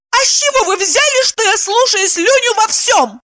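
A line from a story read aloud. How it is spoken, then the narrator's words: Yelled. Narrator (Russian): завопила она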